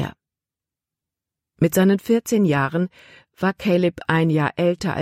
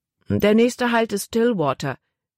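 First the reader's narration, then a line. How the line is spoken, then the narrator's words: Plain. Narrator (German): sagte er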